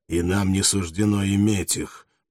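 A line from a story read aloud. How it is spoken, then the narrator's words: Growl. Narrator (Russian): прорычал другой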